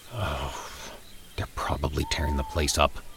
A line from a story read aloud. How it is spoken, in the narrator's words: Mike muttered ruefully